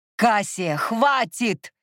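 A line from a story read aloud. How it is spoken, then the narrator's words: Barked command. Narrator (Russian): рявкнул Микель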